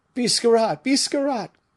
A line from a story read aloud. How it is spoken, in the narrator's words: cried the fugitives